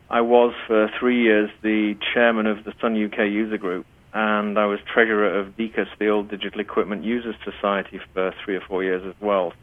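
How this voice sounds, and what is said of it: British accent. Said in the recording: “back in the UK, which is where I originate from, as you can probably tell by my accent”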